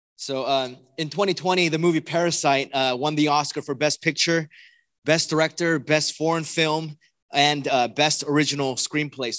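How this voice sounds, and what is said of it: Hoarse, worn-out voice. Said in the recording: “I was at a wedding, so that's why my voice is gone.”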